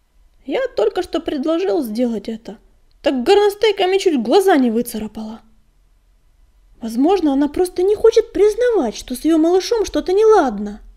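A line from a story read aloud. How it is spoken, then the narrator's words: Exclaiming. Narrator (Russian): воскликнул Бурый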